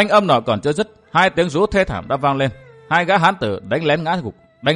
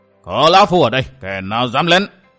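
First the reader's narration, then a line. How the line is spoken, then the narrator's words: Deafening old man's shout. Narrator (Vietnamese): một tiếng quát vang lên chấn động màng tai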